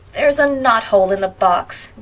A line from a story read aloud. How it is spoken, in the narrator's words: groaned